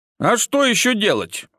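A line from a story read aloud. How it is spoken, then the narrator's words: Snort. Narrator (Russian): хмыкнул я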